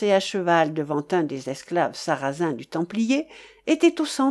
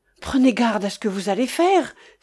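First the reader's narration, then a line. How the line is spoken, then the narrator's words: Exclaiming. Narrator (French): s'écria Wamba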